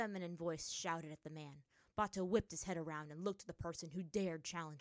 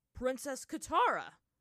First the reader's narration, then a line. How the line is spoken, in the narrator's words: Bato exclaimed, stunned